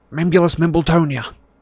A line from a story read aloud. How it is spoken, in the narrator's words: he gasped